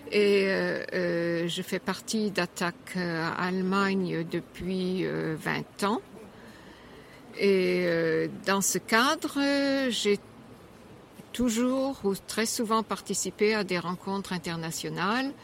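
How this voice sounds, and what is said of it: Slight German accent in French. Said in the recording (French): “mon petit accent allemand”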